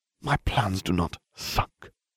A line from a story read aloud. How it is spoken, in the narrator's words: Lucius hissed